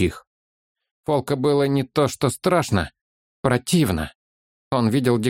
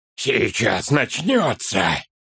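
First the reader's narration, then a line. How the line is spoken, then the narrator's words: Hissing, orc. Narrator (Russian): прошипел Уфорг, орк-мечник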